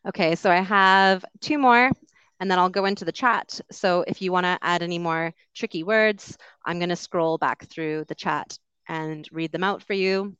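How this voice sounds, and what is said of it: Canadian English accent. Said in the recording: “I have a Canadian accent”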